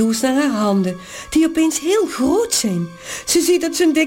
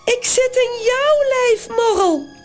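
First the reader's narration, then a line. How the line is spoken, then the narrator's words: Screamed. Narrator (Dutch): gilt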